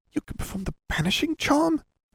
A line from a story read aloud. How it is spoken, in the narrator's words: Hermione whispered